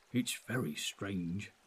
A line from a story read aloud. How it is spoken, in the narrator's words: murmured